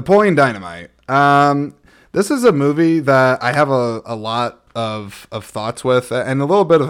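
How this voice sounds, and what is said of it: Usual voice. Nothing is said of it.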